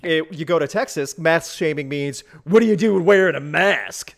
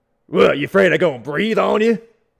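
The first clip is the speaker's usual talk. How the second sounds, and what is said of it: Poor put-on Texas accent. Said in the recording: “That's a terrible Texas accent ... You tried to sound like a really weird Coach O there.”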